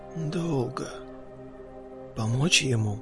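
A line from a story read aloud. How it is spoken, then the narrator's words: Quiet question. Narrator (Russian): тихо спросил паук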